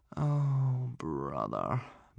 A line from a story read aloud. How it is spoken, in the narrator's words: moaned Hiccup, his shoulders drooping